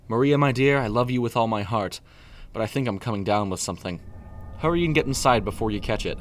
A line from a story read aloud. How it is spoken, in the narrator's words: Preston said in a wavering tone